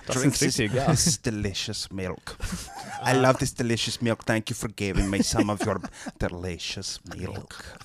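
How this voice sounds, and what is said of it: Put-on German accent. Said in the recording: “I'll get a random German accent ... We are German. ... We have ways of making you talk German.”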